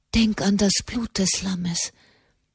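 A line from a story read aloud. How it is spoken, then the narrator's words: Whisper in the ear. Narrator (German): flüsterte Katharina dem Knaben ins Ohr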